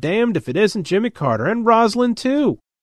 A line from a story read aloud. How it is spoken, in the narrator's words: Fred's exclaimed